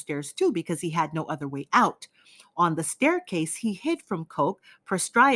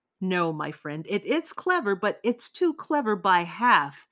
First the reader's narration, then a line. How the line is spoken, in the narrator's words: Zosimov exclaimed